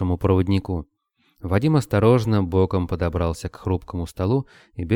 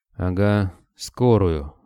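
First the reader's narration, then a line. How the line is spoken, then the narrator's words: Gloomy reply. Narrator (Russian): мрачно отозвался тот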